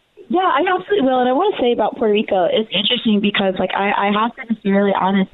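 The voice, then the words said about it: Southern American accent. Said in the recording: “My southern accent.”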